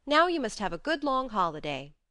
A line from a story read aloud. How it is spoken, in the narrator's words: Joe said hastily